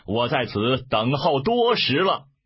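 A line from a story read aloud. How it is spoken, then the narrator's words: Loud shout. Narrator (Chinese): 一队军马飞出，大叫曰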